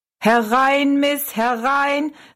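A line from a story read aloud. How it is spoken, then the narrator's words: Calling out. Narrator (German): rief er Rosalie zu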